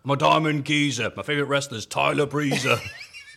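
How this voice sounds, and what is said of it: Put-on London accent. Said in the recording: “I can't do a London accent all of a sudden. What the fuck is that?”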